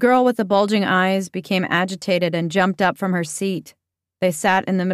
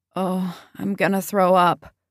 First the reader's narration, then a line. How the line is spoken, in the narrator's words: involuntarily he moaned